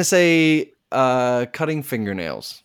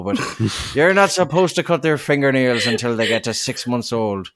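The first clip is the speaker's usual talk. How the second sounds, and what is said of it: Attempted Welsh accent sounding Irish. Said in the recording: “I'm kind of Irish right now ... And the Irish Welsh. ... A Welsh accent is extraordinarily difficult”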